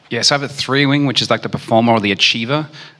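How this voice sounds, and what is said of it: Australian accent. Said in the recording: “I have an Australian accent”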